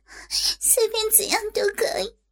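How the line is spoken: Tearful. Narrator (Chinese): 佩仪带着哭音说道

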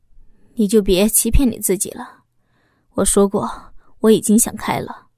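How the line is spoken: Sighing. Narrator (Chinese): 老公叹息了一声，说道

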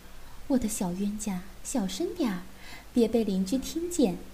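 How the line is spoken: Flustered hushed voice. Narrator (Chinese): 妈妈那风骚的俏脸此时变得绯红，小声道

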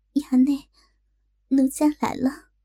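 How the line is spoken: Nervous trembling voice. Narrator (Chinese): 她紧张的秀脸通红，颤声道

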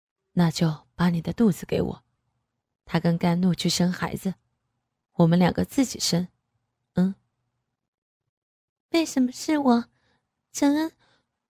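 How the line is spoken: Sighing. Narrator (Chinese): 郑恩……叹息道

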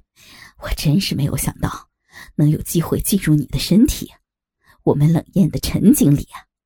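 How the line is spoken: Lewd leering laugh. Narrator (Chinese): 老张……淫笑着说

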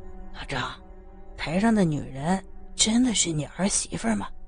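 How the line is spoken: Startled whisper. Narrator (Chinese): 黄文君给吓了一大跳，悄声问道

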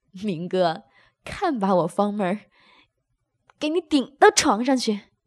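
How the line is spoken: Laughing. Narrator (Chinese): 任飞笑道

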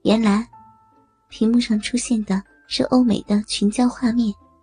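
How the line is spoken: Sighing. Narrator (Chinese): 李峰叹道

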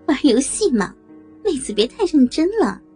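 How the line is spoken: Laughing. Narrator (Chinese): 美红笑着说

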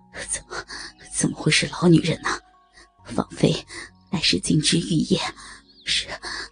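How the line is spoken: Heavy panting. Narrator (Chinese): 虚竹气喘如牛的回应着

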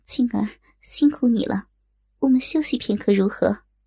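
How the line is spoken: Gentle. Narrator (Chinese): 柔声道

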